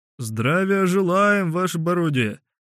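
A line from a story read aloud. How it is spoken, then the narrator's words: Curt bass shout. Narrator (Russian): Тем же отрывистым басом крикнул он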